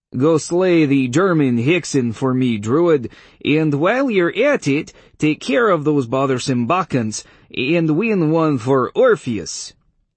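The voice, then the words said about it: Higher-pitched, poorly done Polish accent. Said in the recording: “I changed my voice to her pitch and tried to affect a Polish accent ... It sounded like a Russian trying to imitate Bela Lugosi and failing miserably.”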